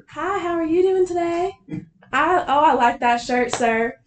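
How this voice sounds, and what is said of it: Thick put-on Southern accent. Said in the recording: “I say in my thickest Southern accent”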